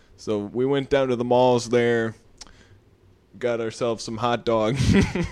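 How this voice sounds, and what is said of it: Put-on Chicago accent. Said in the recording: “The Chicago accent is a tough one. It's adding S's where they don't belong and taking them away from where they do belong.”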